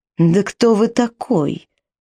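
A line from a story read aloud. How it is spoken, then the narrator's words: Hissing, woman. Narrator (Russian): прошипела она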